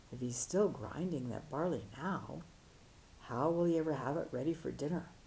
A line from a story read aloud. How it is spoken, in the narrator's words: the monks, disarmed by the master's innocence, whispered to one another